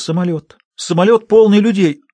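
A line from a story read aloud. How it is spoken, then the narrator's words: Sobbing. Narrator (Russian): она разрыдалась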